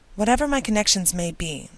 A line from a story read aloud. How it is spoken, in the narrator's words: said Elizabeth